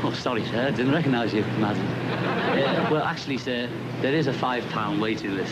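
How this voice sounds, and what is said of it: Oxford English accent. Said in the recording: “I love your Oxford accent.”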